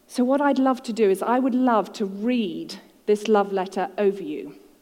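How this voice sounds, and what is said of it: English accent. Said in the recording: “The English accent comes free of charge.”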